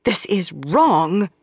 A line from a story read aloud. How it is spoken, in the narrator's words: Elid said fiercely